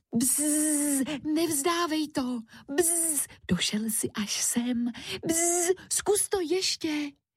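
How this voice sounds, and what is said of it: Whispering buzzing fly character voice. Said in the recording (Czech): “Šeptala moucha.”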